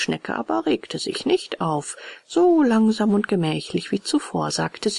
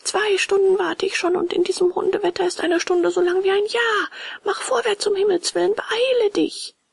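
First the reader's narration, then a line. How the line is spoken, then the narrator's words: Calling out. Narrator (German): rief Bengele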